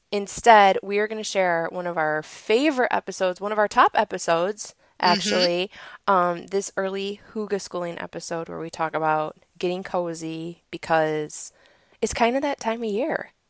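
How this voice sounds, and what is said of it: Voice still slightly sick. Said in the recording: “I'm finally kicking this plague that I've had... you can still hear it in my voice a little bit”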